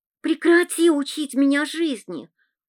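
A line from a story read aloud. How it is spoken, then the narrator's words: Snake-like hiss. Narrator (Russian): прошипела Оля, как змея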